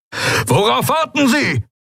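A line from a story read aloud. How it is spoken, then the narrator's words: Roared. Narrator (German): brüllte Telios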